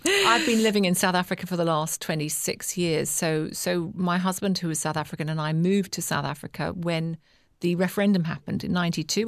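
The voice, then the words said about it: British accent. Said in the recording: “I'm British, as you can probably hear by my accent.”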